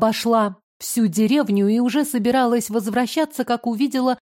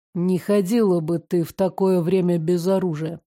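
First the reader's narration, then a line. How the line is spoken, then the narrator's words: Gruff mutter. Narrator (Russian): буркнул незнакомец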